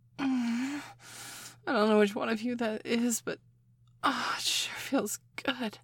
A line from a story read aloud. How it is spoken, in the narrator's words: I moaned